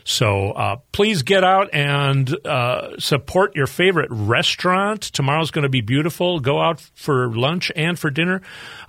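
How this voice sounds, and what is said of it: Midwestern American accent. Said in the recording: “my Midwestern accent”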